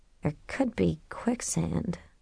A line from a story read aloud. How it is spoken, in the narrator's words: she muttered